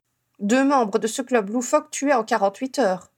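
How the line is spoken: Grumbling. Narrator (French): grogna Owen

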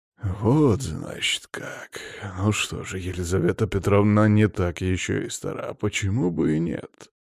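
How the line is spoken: Quietly spoken. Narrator (Russian): Тихо проговорил

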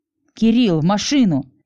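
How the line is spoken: Barked. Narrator (Russian): рявкнула на замешкавшегося парня Миражана

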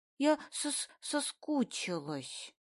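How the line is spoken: Stammering. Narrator (Russian): Заикаясь, выговаривает она

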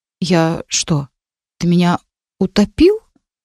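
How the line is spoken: Confused question. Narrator (Russian): растерянно спросила

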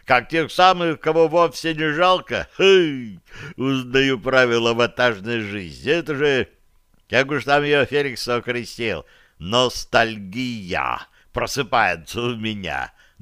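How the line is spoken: Giggling. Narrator (Russian): добавил он и хихикнул

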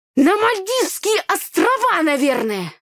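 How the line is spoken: Snapping retort. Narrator (Russian): огрызнулся брат

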